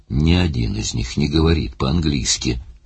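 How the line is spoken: Sullen grumble. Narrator (Russian): угрюмо проворчал Барни

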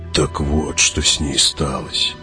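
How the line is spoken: Mutter. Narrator (Russian): пробормотал Хават

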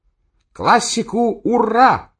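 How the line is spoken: Shout. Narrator (Russian): крикнул Охламонов

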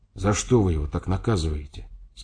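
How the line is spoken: Quiet question. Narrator (Russian): спросил я тихо

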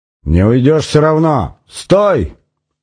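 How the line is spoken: Shouting from behind. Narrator (Russian): кричали снарт сзади

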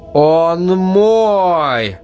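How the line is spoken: Roaring again. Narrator (Russian): Вновь взревела Ирина

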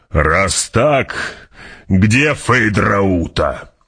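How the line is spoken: Growl. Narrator (Russian): прорычал барон

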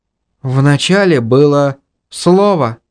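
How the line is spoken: Sigh. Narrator (Russian): вздохнула Инга, запоздало осознав происшедшее

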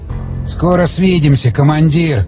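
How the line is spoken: Mutter. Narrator (Russian): пробормотал Дмитрий, обращаясь к мертвому Скворцову

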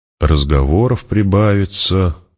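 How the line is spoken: Muttering. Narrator (Russian): пробурчала Хара

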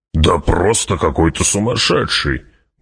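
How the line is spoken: Grumbling mutter. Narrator (Russian): буркнул барон

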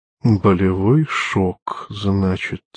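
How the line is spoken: Muttered. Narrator (Russian): пробормотал Лючана

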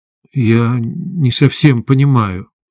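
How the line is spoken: Mumbled. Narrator (Russian): промямлил я

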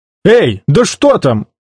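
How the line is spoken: Shouted. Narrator (Russian): крикнул Том

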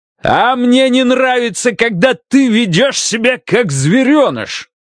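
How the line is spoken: Yelled. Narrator (Russian): Заорал он

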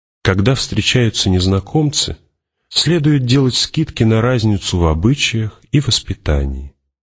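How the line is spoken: Veiled venom. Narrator (Russian): скрытый в его голосе яд

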